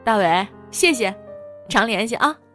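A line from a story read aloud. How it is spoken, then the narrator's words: Loud greeting. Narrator (Chinese): 大声招呼着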